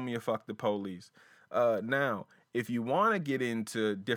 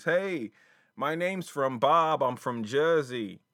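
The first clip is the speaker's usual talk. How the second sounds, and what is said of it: Poor put-on New Jersey accent. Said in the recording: “That's a terrible Jersey accent.”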